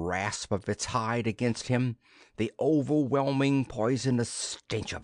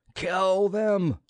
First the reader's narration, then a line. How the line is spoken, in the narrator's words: roared the pilot